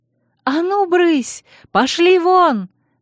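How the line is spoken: Screaming. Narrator (Russian): вопила я

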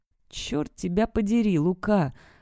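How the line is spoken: Muttered through clenched teeth. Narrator (Russian): пробормотал сквозь сжатые зубы

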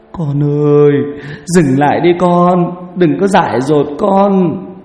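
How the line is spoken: Sobbing women's plea. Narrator (Vietnamese): vợ và mấy cô trong họ khóc nức nở

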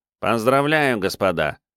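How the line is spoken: Nasal voice. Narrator (Russian): прогнусавил Кишка

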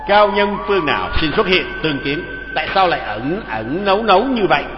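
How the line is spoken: Loud shout. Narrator (Vietnamese): quát lớn

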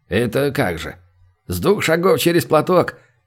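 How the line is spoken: Involuntary chuckle. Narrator (Russian): невольно хохотнул посетитель

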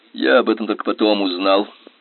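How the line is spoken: Gloomy. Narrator (Russian): мрачно продолжал Генри

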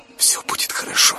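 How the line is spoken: Whisper through labor pain. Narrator (Russian): прошептала она, пережидая очередную схватку

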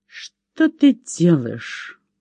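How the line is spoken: Quiet, through gritted teeth. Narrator (Russian): процедил Лаки сквозь зубы, стараясь говорить тихо и не привлекать общего внимания

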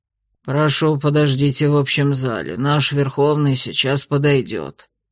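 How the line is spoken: Unfriendly mutter. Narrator (Russian): не особо любезно пробормотал наш сопровождающий

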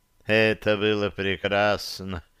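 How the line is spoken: Dreamy drawl. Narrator (Russian): вдруг мечтательно протянул мужчина

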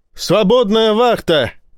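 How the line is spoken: Shout. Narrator (Russian): крикнула Ива

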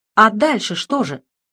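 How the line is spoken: Nervous exclamation. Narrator (Russian): потлатый не выдержал и нервно воскликнул

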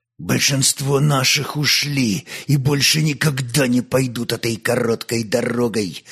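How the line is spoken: Pained hateful, through gritted teeth. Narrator (Russian): сузив очи от ненависти и боли в спине, проговорил сквозь зубы хазарин

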